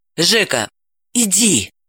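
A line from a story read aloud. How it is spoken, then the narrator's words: Insistent whisper. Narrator (Russian): настойчиво прошептала она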